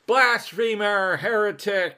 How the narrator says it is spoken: they began to yell and occasionally blurt out

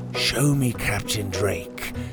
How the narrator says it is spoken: he'd whisper when no one was around

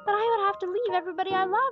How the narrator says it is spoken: he cried

